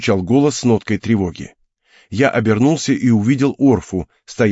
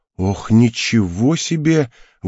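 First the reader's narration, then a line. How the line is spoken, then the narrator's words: Breathless exhale. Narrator (Russian): выдохнула она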